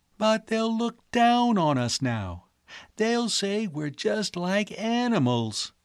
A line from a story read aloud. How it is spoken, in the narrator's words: Edith almost wailed